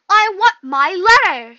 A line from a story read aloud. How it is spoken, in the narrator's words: he shouted